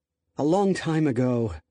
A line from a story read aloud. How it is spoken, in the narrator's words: Nicole sighed